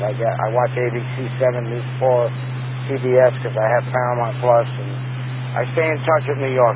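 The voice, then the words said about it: New York accent. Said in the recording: “Everybody says I speak with an accent ... I'll never lose that New York accent.”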